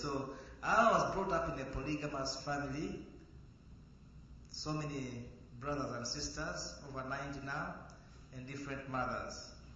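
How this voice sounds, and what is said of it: Heavy African English accent. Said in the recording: “I don't speak American English. I speak African English, so with a big kind of heavy accent.”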